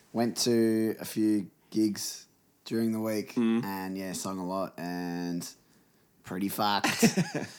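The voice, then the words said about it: Hoarse, sore-throated deep voice. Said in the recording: “My voice is sore. I have a sore throat ... So as you can hear, I've got a bit of a morning DJ voice.”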